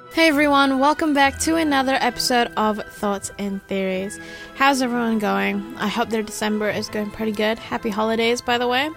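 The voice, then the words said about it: Sounds a little sick, downtrodden. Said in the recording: “if I sound a little sick. ... I have been a little sick. I'm just recovering from a fever. ... if I sound a little downtrodden”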